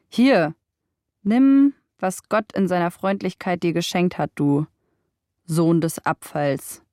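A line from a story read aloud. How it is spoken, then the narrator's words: Mocking. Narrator (German): spottete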